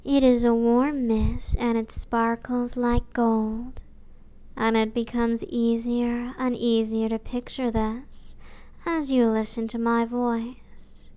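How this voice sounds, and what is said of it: Warm, soft, soothing voice. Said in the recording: “My voice is warm and soft”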